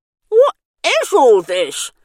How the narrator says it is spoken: Bernice spluttered as the inside of her mouth was prodded with a cotton bud

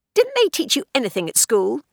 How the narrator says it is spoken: snapped a girl

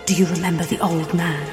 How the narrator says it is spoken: He whispered

